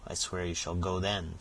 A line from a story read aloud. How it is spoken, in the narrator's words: said the skinner